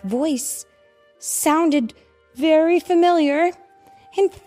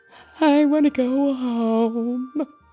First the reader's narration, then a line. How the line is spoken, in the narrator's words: whimpered